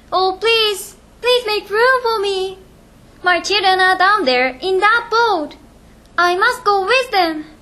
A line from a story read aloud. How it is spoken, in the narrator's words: She came up to the side of the ship and shouted